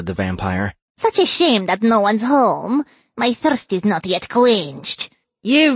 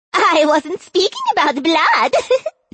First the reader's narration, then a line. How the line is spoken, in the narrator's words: Yarlan said, laughing